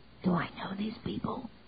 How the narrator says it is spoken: Lyle whispered back

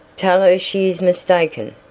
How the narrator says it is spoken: exclaimed Tavia

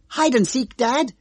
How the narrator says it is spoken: cried

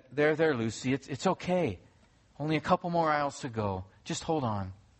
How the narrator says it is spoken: in a sweet tone, her mother said

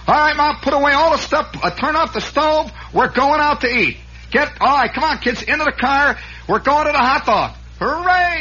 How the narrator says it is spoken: hollering

